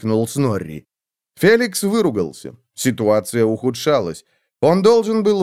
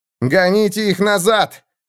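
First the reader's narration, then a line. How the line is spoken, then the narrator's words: Shouted. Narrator (Russian): крикнул он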